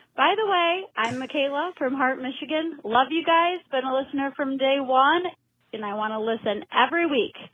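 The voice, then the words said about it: Northern US regional accent. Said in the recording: “I thought I heard that northern accent in there.”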